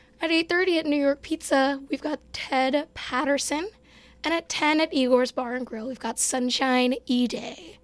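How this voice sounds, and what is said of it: Strained, fading voice. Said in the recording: “I'm kind of losing my voice. So expect me to sound like this.”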